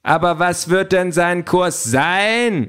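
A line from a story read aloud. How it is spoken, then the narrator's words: Called out from audience. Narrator (German): ruft ein Abgeordneter aus der ersten Reihe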